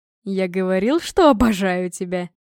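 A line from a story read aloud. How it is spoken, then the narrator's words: Asked through laughter. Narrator (Russian): сквозь смех спросил муж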